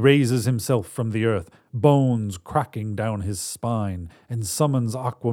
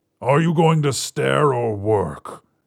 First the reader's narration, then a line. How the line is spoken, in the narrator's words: he grumbles